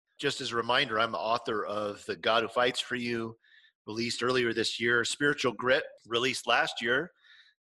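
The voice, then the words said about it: Congested voice from a cold. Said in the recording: “Yes, I have a cold. You can probably hear it in the first 10 seconds of me talking.”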